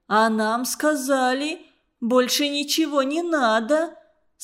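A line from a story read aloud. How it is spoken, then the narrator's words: Defensive with fake sob. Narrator (Russian): Стала оправдываться женщина, притворно всхлипнула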